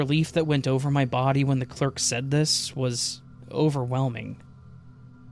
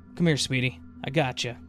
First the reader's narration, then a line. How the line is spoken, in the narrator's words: the clerk said